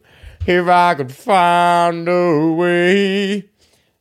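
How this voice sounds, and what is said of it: Imitates a singer's low voice. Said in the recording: “My Cher impression is good... they just sang like Cher... sang real low”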